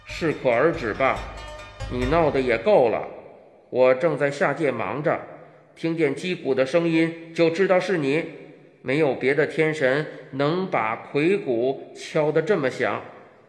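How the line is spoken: Deep, low voice. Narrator (Chinese): 共工沉声说

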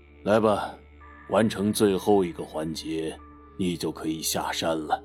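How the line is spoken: Sighing. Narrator (Chinese): 师傅叹了口气，道

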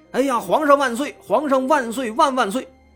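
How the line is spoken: Loud shout. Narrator (Chinese): 廖桂堂对着张清安大声喊

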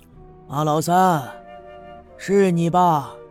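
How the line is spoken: Calm, measured, moderate voice. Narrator (Chinese): 赵村长不紧不慢，声音不大不小

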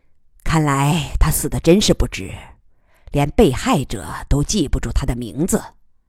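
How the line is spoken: Cold man's voice. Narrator (Chinese): 男人冷冷地说

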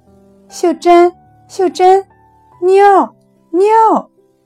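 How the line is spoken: Soft call. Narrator (Chinese): 我追不上他们了，轻轻地喊

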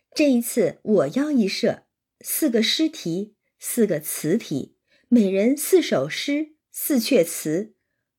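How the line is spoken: Laughing. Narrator (Chinese): 那宝钗也笑道

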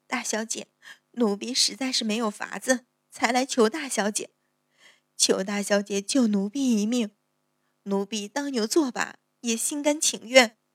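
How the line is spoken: Frightened crying plea. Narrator (Chinese): 春儿 脸色越发苍白 哭道

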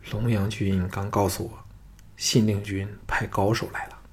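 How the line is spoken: Low voice. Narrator (Chinese): 低声说

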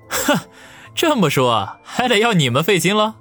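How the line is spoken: Scornful sneer. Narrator (Chinese): 王宇顿时嗤笑一声，说道

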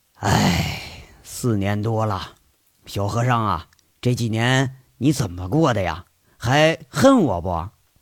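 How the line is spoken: Sighing. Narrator (Chinese): 吴铁军长长叹口气，说着

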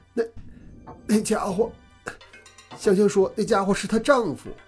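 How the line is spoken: Hoarse cry. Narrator (Chinese): 哑着嗓子叫道

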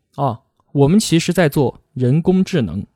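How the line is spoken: Flat, casual reply. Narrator (Chinese): 佩奇淡淡的回了一句

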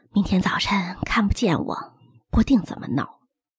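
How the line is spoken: Sighing. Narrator (Chinese): 他叹口气说

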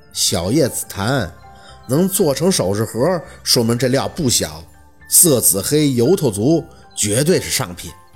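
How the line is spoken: Cool, offhand. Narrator (Chinese): 他淡淡的扔出几个字儿

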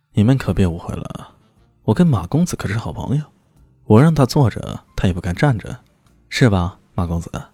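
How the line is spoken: Cheerful laughing. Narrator (Chinese): 李炫笑呵呵的说道

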